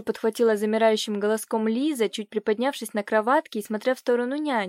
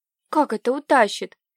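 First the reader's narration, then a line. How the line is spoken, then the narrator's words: Frightened girl babbling. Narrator (Russian): испуганно пролепетала девочка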